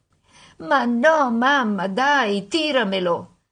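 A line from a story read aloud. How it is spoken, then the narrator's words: Mock whimpering. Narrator (Italian): fece finta di piagnucolare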